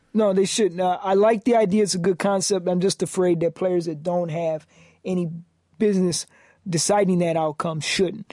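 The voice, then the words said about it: New York accent. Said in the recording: “Maybe it's my New York voice ... You're from Metro Detroit, and you have a New York accent.”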